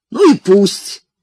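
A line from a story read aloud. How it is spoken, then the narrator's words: Snap. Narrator (Russian): огрызнулся Зигфрид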